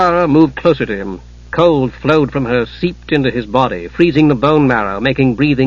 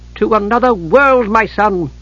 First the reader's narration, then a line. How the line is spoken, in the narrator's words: Kitiara said eagerly